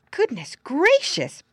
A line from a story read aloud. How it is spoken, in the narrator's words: Brownie Beaver exclaimed